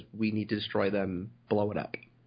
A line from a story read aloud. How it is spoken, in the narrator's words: He just calmly and coldly says